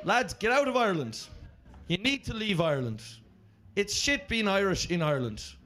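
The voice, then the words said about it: Irish accent. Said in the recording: “the Irish having the sexiest accent ... we sound like little flutes”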